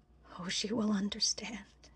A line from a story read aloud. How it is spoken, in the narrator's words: he breathed